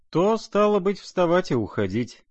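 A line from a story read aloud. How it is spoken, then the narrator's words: Cheerful laughing. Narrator (Russian): князь, как-то даже весело рассмеявшись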